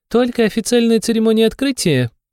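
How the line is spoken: Mocking laughter. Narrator (Russian): передразнивая меня, рассмеялась вампирша

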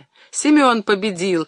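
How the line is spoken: Joyful shout. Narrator (Russian): радостно закричала Варя

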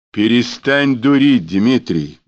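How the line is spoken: Breathless exhale. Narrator (Russian): выдохнул он, не останавливаясь

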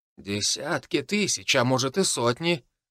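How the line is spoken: Thoughtful correction. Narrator (Russian): задумчиво поправил советника Дроул

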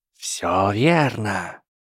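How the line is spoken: Ominous low voice. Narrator (Russian): зловещим низким голосом сказала Трейси

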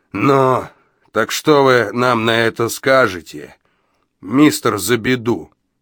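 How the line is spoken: Booming drone. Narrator (Russian): прогудел он

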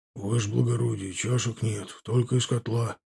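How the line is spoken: Whispered. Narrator (Russian): прошептал унтер

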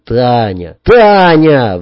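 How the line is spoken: Shouted out. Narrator (Russian): выкрикнул

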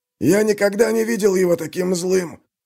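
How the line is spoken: Wheezing. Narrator (Russian): просипел траппер

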